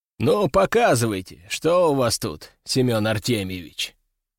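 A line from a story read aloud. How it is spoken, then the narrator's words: Quiet, commanding voice. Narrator (Russian): Сказал он, наконец, негромким, но властным голосом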